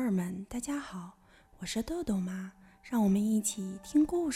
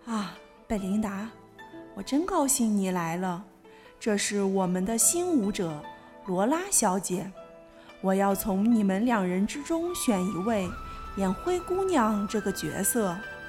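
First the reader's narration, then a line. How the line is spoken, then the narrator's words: Beaming, cheerful. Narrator (Chinese): 指挥大师笑容满面地说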